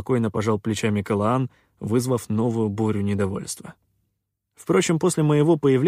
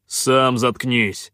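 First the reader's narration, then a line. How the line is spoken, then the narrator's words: Bark. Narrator (Russian): рявкнул Хан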